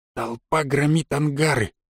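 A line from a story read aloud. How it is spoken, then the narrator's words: Quiet. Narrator (Russian): тихо сказал он нам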